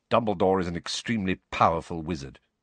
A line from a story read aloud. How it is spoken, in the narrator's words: Snape muttered